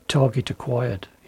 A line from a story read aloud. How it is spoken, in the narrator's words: he whispered